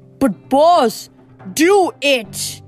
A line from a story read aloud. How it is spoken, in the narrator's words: Luke screamed